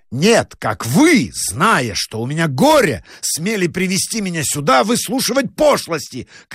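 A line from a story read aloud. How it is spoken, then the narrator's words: Angry shout. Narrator (Russian): крикнул доктор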